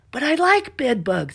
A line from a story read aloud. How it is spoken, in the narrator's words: Stella shouted